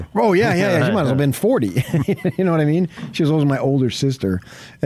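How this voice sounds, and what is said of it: New Jersey / New York accent. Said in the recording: “I have a Jersey accent still, New York, which is basically a New York accent.”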